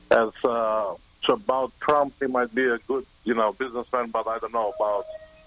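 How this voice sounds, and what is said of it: Obvious foreign accent. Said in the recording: “You have an accent. It's very obvious.”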